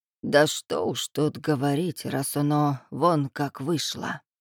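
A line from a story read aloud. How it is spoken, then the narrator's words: Dejected sigh. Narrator (Russian): Вздохнула Ильинична, разом поникнув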